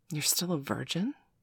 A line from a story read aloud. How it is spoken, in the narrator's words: she asked softly